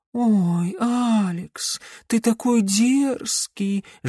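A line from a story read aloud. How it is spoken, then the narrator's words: Affected cooing. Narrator (Russian): жеманно проворковала та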